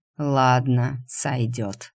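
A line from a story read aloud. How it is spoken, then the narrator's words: Snorting. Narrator (Russian): хмыкнул Седой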